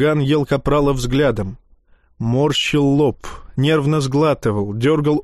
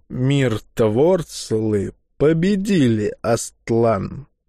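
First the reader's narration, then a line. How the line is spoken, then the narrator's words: Slow, halting old man. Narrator (Russian): Медленно, стараясь не потерять мысль, произнес старик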